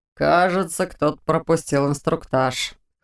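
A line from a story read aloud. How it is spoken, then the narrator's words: Soldier's wry snort. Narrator (Russian): хмыкнул другой легионер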